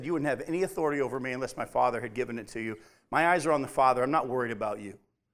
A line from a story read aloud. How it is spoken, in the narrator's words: Jesus calmly looked at him and said